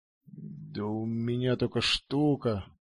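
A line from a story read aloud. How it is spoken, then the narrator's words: Burly man mumbling. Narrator (Russian): промямлил бугай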